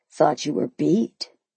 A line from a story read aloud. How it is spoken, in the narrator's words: he murmured